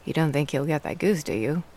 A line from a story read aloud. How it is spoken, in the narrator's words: Dad asked